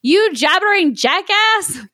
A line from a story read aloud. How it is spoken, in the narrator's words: Shrek screamed